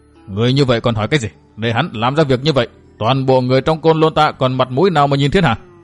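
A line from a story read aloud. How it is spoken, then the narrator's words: Angry. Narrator (Vietnamese): Chí Khởi càng lộ nét giận dữ, nói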